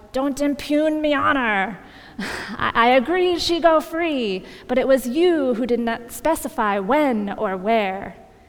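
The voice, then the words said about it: Put-on pirate accent. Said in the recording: “That's a good pirate accent, right?”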